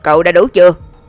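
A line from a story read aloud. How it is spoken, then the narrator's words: Sudden roar over radio. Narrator (Vietnamese): Trong bộ đàm, Lãnh Nguyệt đột nhiên gầm lên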